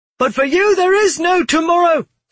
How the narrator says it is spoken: Savar screamed

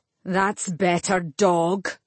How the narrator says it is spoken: Salamander snarled

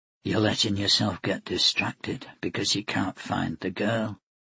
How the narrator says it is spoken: he muttered to himself

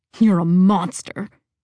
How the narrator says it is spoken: John hissed

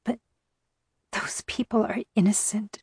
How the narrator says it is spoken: I whispered, tears pricking my eyes

